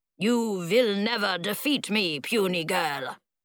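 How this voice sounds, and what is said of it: Dracula-like vampire accent. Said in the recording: “What kind of accent is that? He's not Dracula.”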